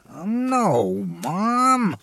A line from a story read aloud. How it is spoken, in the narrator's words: I groaned